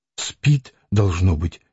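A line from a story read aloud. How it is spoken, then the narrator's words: Quiet. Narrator (Russian): тихо сказала Лидия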